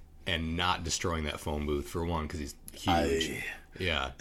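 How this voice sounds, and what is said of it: Usual voice. Nothing is said of it.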